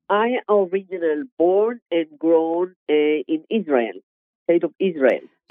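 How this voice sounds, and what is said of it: Israeli accent. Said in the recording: “I recognize the accent.”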